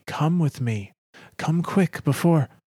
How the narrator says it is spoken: Nasia calls urgently

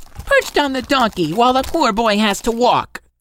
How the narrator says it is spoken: exclaimed

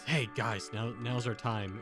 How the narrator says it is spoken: I kind of whisper back

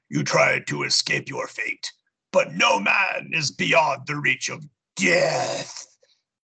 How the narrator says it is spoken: Death bellows

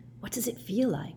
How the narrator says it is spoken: whispered Hermione

